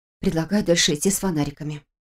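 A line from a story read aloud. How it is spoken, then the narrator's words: Breathless exhale. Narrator (Russian): выдохнула Саша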